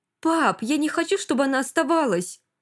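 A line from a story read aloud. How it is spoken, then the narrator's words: Sudden shout. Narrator (Russian): Вдруг крикнул Гнат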